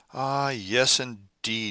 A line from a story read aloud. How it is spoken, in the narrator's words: groaned Hakkabut